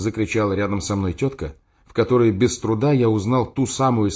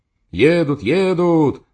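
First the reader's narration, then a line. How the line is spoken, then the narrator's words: Several shouting. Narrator (Russian): закричали другие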